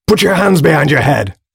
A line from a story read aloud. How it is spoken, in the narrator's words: screamed the figure